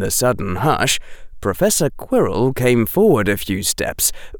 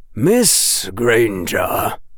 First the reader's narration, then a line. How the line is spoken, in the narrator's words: he said, and his voice was grave